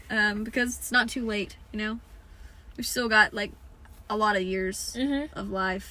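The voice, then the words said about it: Southern accent slipping in. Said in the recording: “That sounded really Southern ... Sometimes a Southern accent kind of kicks in.”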